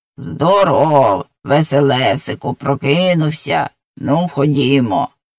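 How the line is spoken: Grating but gentle voice. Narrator (Ukrainian): скриготливим, але зовсім не страшним голосом сказало

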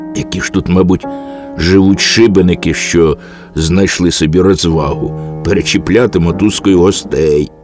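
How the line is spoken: Angry muttering. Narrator (Ukrainian): сердито бурмотів

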